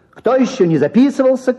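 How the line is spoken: Mermaid's shout. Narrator (Russian): крикнула в аптеке русалка

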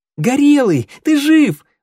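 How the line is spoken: Little flame exclaiming. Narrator (Russian): воскликнул огонек

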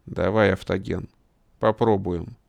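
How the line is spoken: Quiet. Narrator (Russian): негромко сказал он

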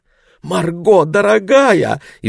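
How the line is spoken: Frightened mother's exclamation. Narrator (Russian): испуганно воскликнула мама

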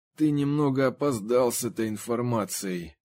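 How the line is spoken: Through clenched teeth. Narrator (Russian): процедил Генри сквозь зубы

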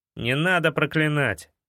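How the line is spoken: Muttered through teeth. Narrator (Russian): процедил Эд

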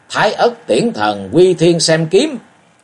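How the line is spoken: Mighty roar. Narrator (Vietnamese): Dương Hận gầm lên uy mãnh

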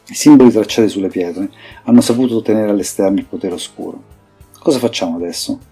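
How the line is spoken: Plain. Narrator (Italian): chiese Arla

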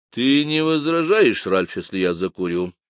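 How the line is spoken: Gloomy question. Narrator (Russian): мрачно спросила Дора

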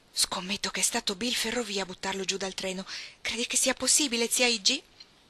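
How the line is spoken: Reverent whisper. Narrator (Italian): con reverenza bisbigliò

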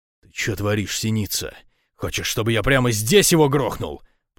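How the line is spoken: Menacing growl. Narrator (Russian): прорычал

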